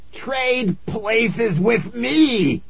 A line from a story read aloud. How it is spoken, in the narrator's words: he screamed